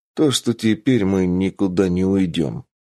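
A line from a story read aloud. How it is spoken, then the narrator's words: Grim statement. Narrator (Russian): мрачно констатировал Мик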